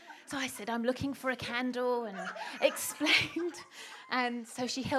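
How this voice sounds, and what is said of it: Usual voice. Nothing is said of it.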